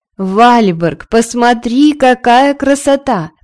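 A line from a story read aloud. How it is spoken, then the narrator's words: Exclaimed with delight. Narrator (Russian): воскликнула королева Аста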